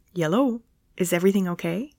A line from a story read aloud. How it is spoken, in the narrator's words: he said in a casual and quick tone